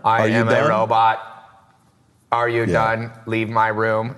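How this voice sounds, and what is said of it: Flat robotic monotone voice. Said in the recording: “the teacher's like this monotone”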